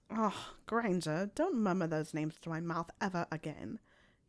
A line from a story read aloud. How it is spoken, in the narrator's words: he grumbled